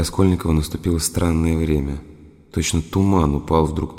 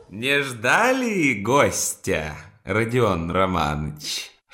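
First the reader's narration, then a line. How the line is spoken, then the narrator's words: Laughing exclamation. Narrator (Russian): вскричал, смеясь, Порфирий Петрович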